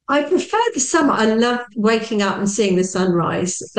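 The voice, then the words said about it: British English accent. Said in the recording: “I'm hearing your accent ... I am just outside of London in the UK”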